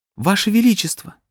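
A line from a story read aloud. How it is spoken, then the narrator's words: Exclaiming woman. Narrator (Russian): воскликнула красавица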